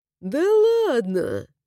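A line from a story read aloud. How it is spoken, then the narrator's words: Drawling. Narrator (Russian): Протянул Хараш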